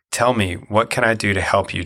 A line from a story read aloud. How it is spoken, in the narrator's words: Jonathan exclaimed